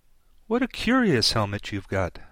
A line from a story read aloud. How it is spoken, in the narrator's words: she said cheerfully